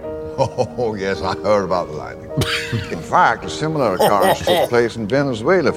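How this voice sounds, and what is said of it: Put-on Southern American accent. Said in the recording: “terrible Southern accent ... we'll hear everyone's Southern accent”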